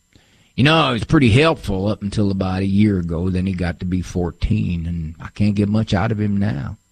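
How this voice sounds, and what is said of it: Put-on rural farmer accent. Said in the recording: “Sorry for the farmer accent there.”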